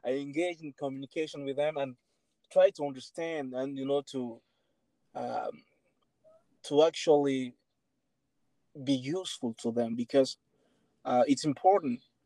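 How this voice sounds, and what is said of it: Speaker with a funny accent. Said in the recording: “my funny accent”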